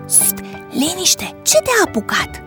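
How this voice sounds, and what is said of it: Whispering. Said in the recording (Romanian): “A șoptit Valentin îngrijorat că ar putea fi auzit de cei ai casei.”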